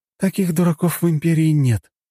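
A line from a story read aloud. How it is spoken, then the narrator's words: Heavy sigh. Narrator (Russian): Лена тяжело вздохнула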